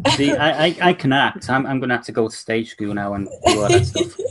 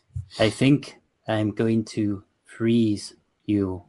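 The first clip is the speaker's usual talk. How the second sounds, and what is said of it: Slow, deliberate, cold villain voice. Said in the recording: “he's very cold and calculating ... he speaks so slowly and deliberately ... Good impersonation.”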